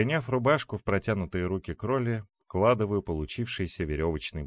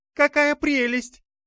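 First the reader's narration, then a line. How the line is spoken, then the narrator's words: Squeaky exclamation, young woman. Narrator (Russian): Пискнув, воскликнула девушка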